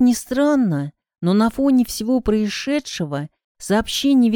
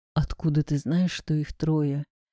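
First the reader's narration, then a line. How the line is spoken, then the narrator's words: Quiet question. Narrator (Russian): также тихо спросил Скопцов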